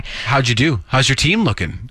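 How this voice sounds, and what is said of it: Fake excited, enthusiastic tone. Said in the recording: “My eyes are dead, but my voice is excited. ... Your voice is very excited.”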